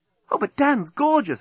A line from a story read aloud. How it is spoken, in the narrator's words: exclaimed Nettie